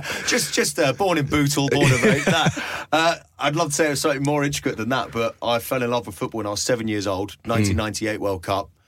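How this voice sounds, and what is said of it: Thick Scouse accent. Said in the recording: “this thick Scouse accent”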